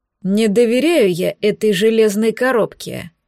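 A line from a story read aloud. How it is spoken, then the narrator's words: Gloomy statement. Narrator (Russian): мрачно констатировал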